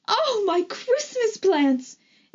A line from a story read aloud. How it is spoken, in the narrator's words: Aunt Rose wailed